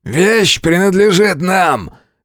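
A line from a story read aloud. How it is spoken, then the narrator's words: Snarling, half-beastly bark. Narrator (Russian): Рявкнул, частично теряя человеческий облик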